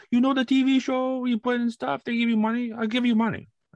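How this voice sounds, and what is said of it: Put-on heavy Jamaican accent. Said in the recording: “like very heavy Jamaican accent ... A very heavy Jamaican accent.”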